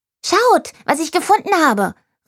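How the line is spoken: Excited shout. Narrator (German): rief Jerry aufgeregt

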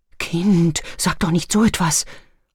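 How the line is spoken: Horrified breathy whisper. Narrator (German): hauchte Johanna entsetzt

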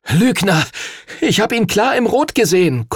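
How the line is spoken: Gasping. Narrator (German): keuchte Henry

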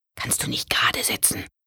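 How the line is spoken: Brother whispering. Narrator (German): flüsterte ihr Bruder Otto

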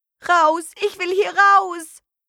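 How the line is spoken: Screaming girl. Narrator (German): schrie das Mädchen

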